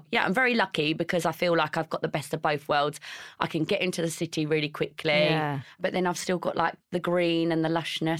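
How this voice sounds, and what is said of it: Strong Essex accent. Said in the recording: “I've got the really strong Essex accent”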